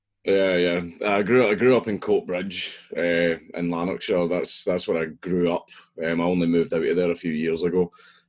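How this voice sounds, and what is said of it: Scottish accent. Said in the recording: “I take it you grew up in Scotland. We're hearing that lovely accent coming through right now.”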